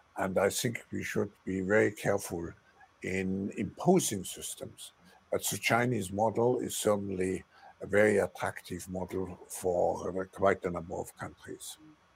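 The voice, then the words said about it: Heavy accent speaking English. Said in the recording (Chinese): “口音好重啊，... 是口音好重。”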